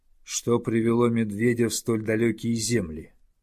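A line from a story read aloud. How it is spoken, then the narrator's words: Calm but challenging. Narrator (Russian): спокойно, но с вызовом спросил волк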